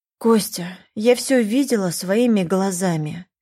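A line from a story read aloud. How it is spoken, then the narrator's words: Sighing. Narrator (Russian): вздохнула Лиза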